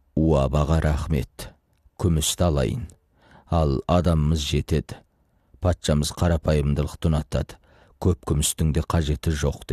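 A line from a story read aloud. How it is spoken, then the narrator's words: Plain. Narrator (Kazakh): деді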